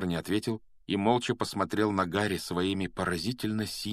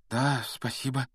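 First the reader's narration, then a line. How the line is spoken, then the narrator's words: Uncertain mumble. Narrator (Russian): неуверенно пробормотал Гарри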